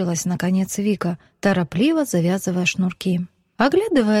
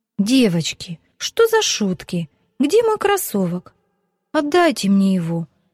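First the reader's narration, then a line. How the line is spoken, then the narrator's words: Tearful exclamation. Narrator (Russian): Со слезами на глазах воскликнула Вика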